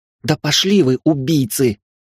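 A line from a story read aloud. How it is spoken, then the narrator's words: Angry hiss, young woman. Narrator (Russian): зло прошипела девушка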